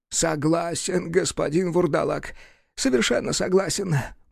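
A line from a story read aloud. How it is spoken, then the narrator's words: Groaning. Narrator (Russian): простонал Вересаев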